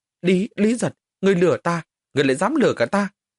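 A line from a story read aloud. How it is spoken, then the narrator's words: Ashamed, angry. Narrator (Vietnamese): Người vẻ mặt xấu hổ, giận dữ nói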